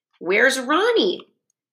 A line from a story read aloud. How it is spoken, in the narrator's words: Bradley asked